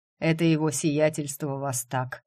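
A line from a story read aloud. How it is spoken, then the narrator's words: Hoarse question. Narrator (Russian): все так же хрипло спросила тень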